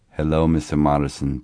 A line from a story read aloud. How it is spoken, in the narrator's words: Donati said